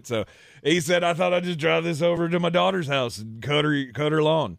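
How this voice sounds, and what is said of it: Put-on Southern accent. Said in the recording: “I don't know why I'm giving him a southern accent, because he's from Australia, but I can't do that accent.”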